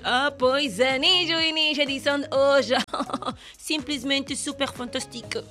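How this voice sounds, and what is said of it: Put-on French accent. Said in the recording (Portuguese): “Gostaste do meu sotaque francês?”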